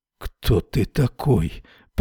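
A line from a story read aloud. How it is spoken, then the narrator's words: Mutter. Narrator (Russian): пробормотал Эрвин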